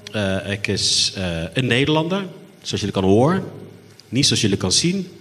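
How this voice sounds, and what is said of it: Afrikaans with strong Dutch accent. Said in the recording (Dutch): “Ik klink zoals een Nederkaan... mijn accent is behoorlijk Nederlands”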